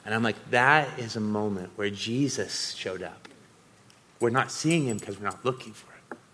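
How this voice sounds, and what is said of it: Choked-up, emotional voice. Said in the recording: “forgive me for getting choked up, but I've been through a lot of emotional stuff over the last week”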